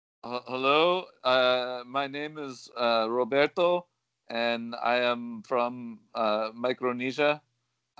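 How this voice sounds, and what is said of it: Poor put-on foreign accent. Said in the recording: “Did you uh, just hear ... his horrible accent?”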